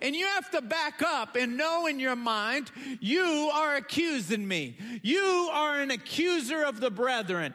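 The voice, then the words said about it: Yelling, fired-up preaching. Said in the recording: “I'm sorry I'm yelling, but I'm getting fired up”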